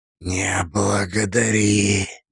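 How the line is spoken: Inner whisper. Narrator (Russian): мысленно прошептал мастер

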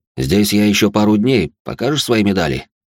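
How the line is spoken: Plain. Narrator (Russian): спросил он

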